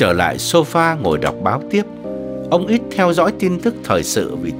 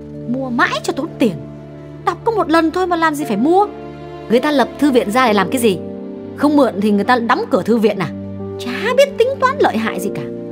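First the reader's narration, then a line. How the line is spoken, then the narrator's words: Harsh voice from next room. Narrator (Vietnamese): tiếng của bà Nghị từ phòng bên cạnh vọng sang, gay gắt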